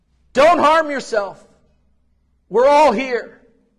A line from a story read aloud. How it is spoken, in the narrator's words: Paul shouted